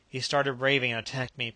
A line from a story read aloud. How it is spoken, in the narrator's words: panted the captain